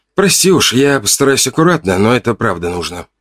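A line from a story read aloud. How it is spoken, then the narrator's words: Whisper. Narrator (Russian): прошептал я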